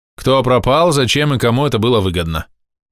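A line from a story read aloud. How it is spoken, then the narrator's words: Commanding voice. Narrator (Russian): командным голосом сказал я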